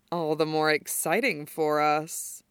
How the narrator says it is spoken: Mukuro chuckles back

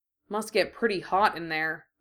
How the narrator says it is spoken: Minho said

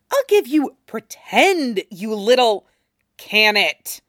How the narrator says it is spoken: Kurama growls, and the words resonate in his throat, deeper than he intends them to be

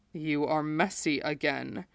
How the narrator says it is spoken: Ulaz murmured, very nearly scolding

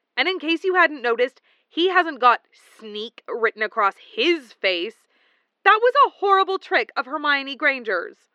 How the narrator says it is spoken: said fiercely

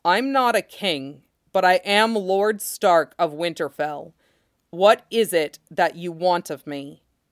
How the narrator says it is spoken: Rob said slowly to the strangeness that was the giant's face

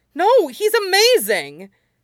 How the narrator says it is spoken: Midoriya yelped, with the vehemence of his outburst

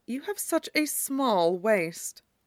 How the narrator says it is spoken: muttered quietly

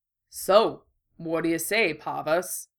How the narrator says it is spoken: the bull murmured

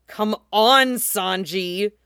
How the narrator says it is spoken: she growls then

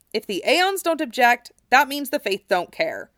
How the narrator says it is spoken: Cloud said firmly

